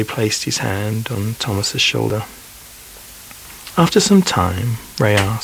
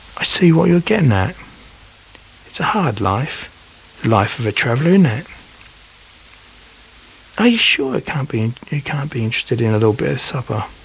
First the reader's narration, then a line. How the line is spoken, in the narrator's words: Thomas wistfully replied